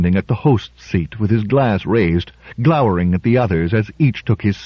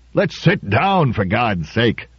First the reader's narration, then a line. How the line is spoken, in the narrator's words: roared Trumbull